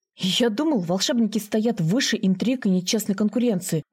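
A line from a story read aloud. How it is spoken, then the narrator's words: Indignant. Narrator (Russian): возмущенно сказал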